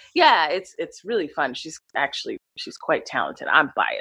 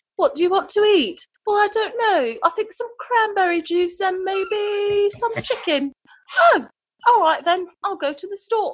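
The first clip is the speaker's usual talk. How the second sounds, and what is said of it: Put-on British accent. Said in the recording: “the week that we were learning British accent”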